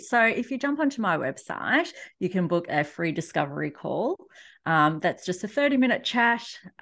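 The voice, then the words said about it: Australian accent. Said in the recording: “if you can't already tell from my accent, I am in Australia, so I'm in Melbourne”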